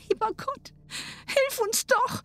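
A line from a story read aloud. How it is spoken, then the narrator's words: Pleading. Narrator (German): flehte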